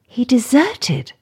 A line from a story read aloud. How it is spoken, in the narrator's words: gasped Kathy